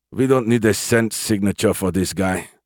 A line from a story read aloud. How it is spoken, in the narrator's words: Lieutenant Kruger grunted